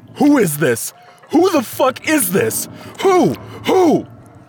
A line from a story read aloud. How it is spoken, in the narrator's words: Cecil gave in to his mania, screaming into the phone